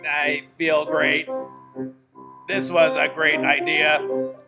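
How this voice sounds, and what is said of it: Robot voice. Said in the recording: “How's the robot voice?”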